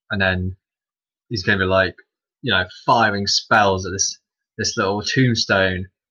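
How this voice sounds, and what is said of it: Usual voice. Nothing is said of it.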